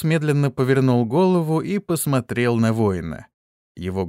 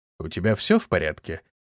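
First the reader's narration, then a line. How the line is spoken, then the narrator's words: Plain. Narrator (Russian): спросил он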